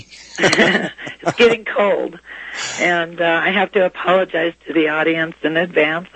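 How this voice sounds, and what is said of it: Hoarse voice that cuts out. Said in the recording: “I've had bronchitis, so my voice is not the best it's ever been. So if I cut in and out, it's not the station, it's my voice.”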